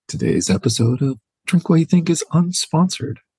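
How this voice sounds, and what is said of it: Podcast sponsor-read announcer voice. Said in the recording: “in your sponsor voice”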